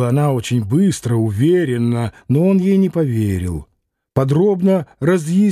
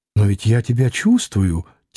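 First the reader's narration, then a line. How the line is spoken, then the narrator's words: Soft female exclamation. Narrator (Russian): тихо воскликнула она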